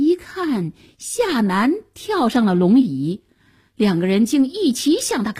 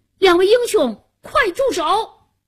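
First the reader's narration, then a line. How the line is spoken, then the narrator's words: Loud shout. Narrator (Chinese): 夏楠高声喊道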